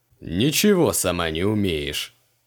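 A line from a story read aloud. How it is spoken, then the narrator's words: Satisfied snort. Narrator (Russian): удовлетворенно хмыкнул Криол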